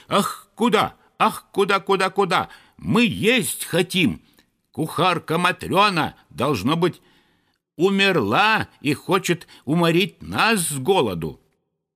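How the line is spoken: Frantic shouting, several voices. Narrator (Russian): неистово кричали

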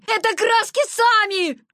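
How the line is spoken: Desperate shout. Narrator (Russian): крикнул он в отчаянии

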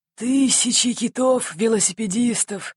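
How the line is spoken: Bewildered mutter, captain. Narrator (Russian): растерянно пробормотал полубородый капитан

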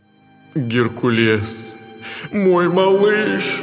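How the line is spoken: Trembling, nearly sobbing. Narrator (Russian): дрожащим голосом, чуть ли не рыдая, произнес Зевс

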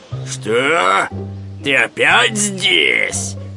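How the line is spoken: Bear's growl. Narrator (Russian): зарычал медведь

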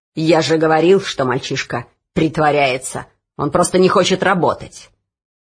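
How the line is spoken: Growling overseer. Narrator (Russian): прорычал надсмотрщик

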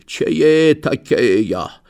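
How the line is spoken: Hoarse wheeze. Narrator (Russian): А барин хрипит

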